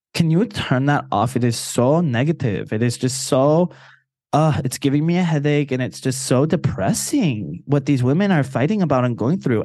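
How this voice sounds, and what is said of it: Put-on Puerto Rican accent. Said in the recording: “My mom's got a Puerto Rican accent. She's from the island”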